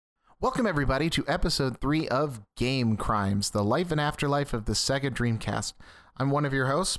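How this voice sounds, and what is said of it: Calm public radio announcer voice. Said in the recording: “gives me NPR voice”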